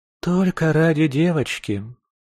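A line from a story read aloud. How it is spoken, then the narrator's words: Heavy sigh. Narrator (Russian): тяжело вздохнула Мараджелла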